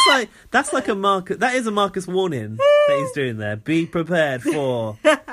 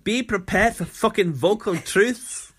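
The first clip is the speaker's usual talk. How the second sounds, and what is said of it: Put-on Scottish accent. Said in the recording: “I want to hear that in a Scottish accent”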